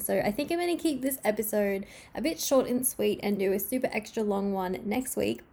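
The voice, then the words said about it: Voice weakened from illness. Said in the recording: “as you can hear my voice, I'm so sorry. I've been so sick since about Sunday and my voice is finally coming back”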